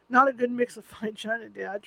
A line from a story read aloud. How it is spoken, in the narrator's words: Trey chuckled